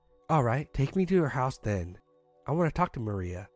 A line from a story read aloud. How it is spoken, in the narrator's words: he said calmly